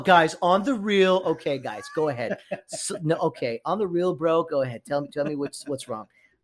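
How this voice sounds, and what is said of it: Imitates another person's voice. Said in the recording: “that's my Fred impression”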